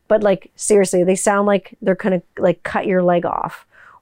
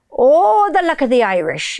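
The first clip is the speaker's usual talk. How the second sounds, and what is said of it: Put-on Irish accent. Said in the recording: “I can do fucking vocal matching without sounding like a weird pirate... when people do an Irish accent, they sound like a crazy pirate”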